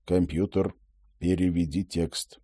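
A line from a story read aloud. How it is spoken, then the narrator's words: Quiet furtive request. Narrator (Russian): Роджер негромко, воровато попросил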